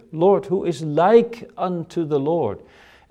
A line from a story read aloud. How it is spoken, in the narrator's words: the biblical authors exclaim in their worship